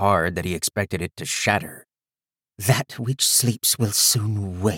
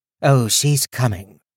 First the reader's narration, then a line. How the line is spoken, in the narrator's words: Ulsa said in a dry tone